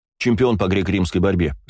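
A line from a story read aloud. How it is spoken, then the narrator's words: Plain. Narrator (Russian): сказал я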